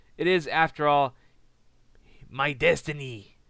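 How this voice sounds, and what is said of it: Bad impression of Alberto Del Rio. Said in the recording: “bad impersonation”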